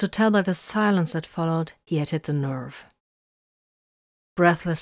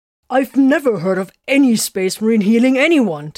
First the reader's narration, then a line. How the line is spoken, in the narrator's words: Tiberius snapped